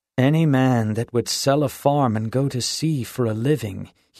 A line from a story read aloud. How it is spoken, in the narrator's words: had groaned